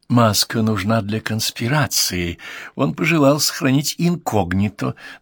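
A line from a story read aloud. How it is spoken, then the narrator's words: Confidential whisper. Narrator (Russian): добавил он и прошептал доверительно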